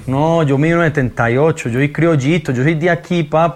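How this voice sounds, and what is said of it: Put-on Colombian Medellín accent. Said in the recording (Spanish): “Me encanta cómo habla Maluma, güey, el acento colombiano ... Sí, qué buen acento ... El acento, parce ... Es de Medellín, ¿no?”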